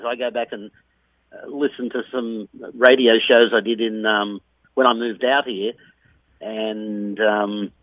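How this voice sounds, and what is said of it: Australian accent. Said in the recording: “A lot of people lose their accent very quickly, and I think that I've been, lucky to keep it ... there's still a lot of Australian accent in my life ... you'd think that it would have lessened a lot, but I don't think it has”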